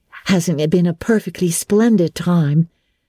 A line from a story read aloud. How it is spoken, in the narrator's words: sighed Jane